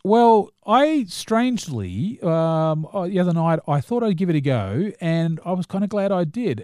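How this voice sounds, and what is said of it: New Zealand accent. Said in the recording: “that's a terrible accent. No, we don't talk like that ... Mocking New Zealand accents ... I am a New Zealander”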